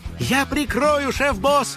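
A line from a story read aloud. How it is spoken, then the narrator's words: Shouted. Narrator (Russian): крикнула кудряшка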